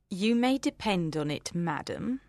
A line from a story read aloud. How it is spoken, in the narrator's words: said Miss Bingley coldly